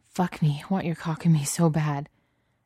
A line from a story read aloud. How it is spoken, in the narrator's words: with him gasping